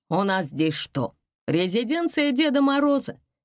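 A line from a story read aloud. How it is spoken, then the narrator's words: Cheerful father. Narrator (Russian): весело спросил папа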